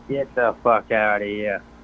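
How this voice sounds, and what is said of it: Put-on East Coast accent. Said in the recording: “How you like that for the East Coast accent? ... My East Coast accent is more authentic than yours ... It's a pretty good James Gandolfini there.”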